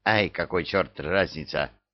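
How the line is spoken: Angry grumble. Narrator (Russian): сердито буркнул бывалый

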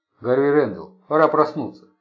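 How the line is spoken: Plain. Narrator (Russian): сказала она

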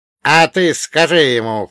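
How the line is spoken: Composed snort, old man. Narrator (Russian): фыркнул дед, так и не потеряв самообладание

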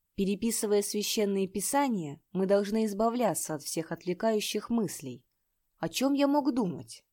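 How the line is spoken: Calm. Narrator (Russian): Он спокойно сказал

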